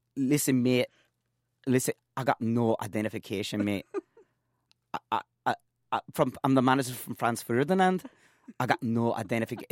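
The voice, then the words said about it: Bad put-on Scottish accent. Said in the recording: “my worst impression of a Scottish accent”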